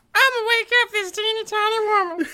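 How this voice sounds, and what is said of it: Elmo voice with southern drawl. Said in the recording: “Elmo is one of your go-to impressions ... Elmo had a little bit of a southern drawl in that last one”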